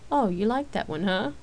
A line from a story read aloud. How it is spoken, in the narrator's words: Rain answered with a chuckle